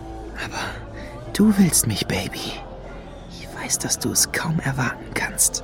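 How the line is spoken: Whispered. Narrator (German): flüsterte er Lady Luna zu

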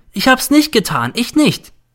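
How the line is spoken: Screams. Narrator (German): schreit der N

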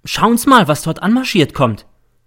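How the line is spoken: Sudden call. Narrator (German): ruft plötzlich der M

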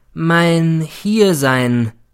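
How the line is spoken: Slow, emphatic. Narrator (German): begann er wieder langsam und betont

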